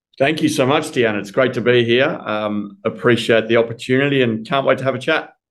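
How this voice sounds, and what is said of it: Australian accent. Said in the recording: “I'm sure the audience is going to love the accent ... I'm calling in from Melbourne, Australia ... your accent just like pulls me in”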